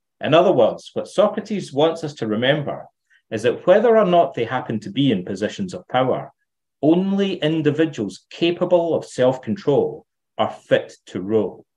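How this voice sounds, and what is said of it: Scottish accent. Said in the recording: “you brought your Scottish accent today”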